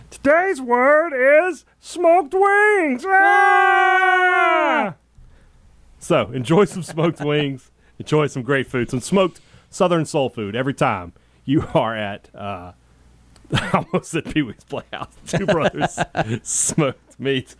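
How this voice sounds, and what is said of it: Pee-wee Herman character voice. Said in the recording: “My Pee-wee wasn't bad there. That wasn't a terrible impression.”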